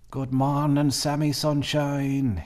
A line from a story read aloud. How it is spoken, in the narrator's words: he cried